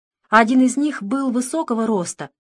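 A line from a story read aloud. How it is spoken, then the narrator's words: Joyful, eager. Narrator (Russian): радостно подхватила она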